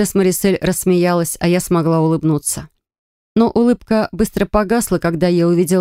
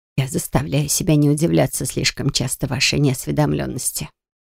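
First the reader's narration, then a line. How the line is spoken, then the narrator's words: Muttered. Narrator (Russian): пробормотала целительница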